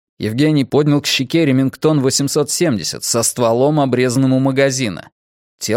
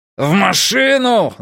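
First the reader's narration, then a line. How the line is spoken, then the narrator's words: Yelling. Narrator (Russian): заорал Бу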